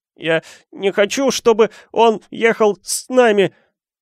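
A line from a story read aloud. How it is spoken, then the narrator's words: Bawling with fake sobs. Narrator (Russian): заорал Дадли, издавая громкие притворные всхлипы после каждого слова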